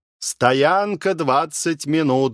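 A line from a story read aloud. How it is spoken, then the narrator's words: Conductors shouting loudly. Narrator (Russian): громко выкрикивали проводники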